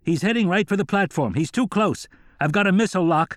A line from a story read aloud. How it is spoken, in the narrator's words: another excited voice being transmitted over a radio shouted